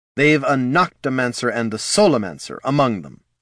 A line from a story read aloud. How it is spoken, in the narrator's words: snapped Mr